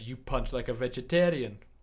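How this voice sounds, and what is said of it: Poor impression slipping into Indian accent. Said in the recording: “That was a fucking awful accent. That went Indian.”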